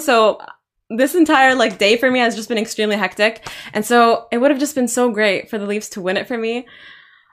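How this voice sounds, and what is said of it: Sore, strained voice. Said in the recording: “My voice is literally hurting. Like, I screamed so much today.”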